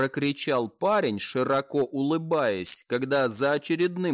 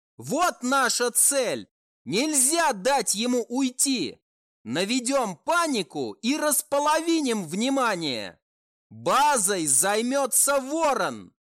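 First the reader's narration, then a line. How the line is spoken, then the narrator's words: Shout. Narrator (Russian): Прокричал Фокси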